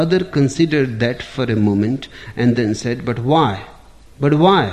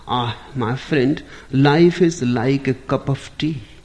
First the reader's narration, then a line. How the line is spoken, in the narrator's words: said with a sigh